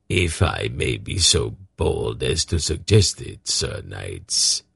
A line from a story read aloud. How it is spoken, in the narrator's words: he said in an unctuous tone